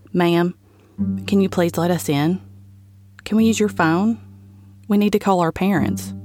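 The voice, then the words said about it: Flat, emotionless child's voice. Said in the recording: “in an emotionless voice”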